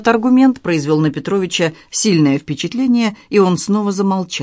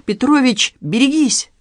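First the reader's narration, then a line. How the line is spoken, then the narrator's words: Cried out. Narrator (Russian): вскрикнул Мармышкин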